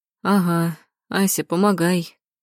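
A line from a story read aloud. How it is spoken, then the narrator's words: Groaning. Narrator (Russian): простонал Лебедев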